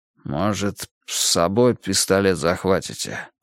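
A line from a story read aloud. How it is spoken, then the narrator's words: Weary suggestion. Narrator (Russian): предложил Алимханов, устало обмякший на сиденье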